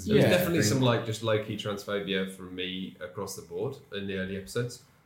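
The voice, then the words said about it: Put-on Australian accent. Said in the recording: “I said that in an Australian accent”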